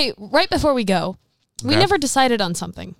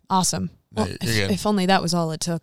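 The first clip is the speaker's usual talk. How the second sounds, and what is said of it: Put-on radio announcer voice. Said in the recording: “I'm working on my radio voice ... I can tell”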